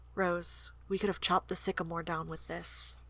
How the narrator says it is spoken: The merciful darkness closed in on him as he murmured to her

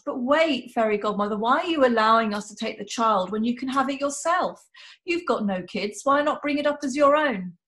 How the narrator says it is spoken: The fairy godmother laughs raucously

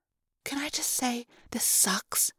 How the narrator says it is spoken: I muttered

